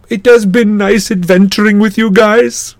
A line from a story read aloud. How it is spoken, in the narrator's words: Grover said, his voice trembling